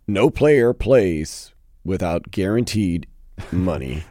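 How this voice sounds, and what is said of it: Good Omar Kelly impression. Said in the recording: “Let me put my best Omar. Omar Kelly. ... That is a good Omar impression.”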